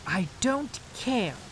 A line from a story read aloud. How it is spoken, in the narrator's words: cried